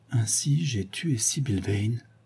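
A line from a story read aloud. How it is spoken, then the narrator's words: Murmuring. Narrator (French): murmurait Dorian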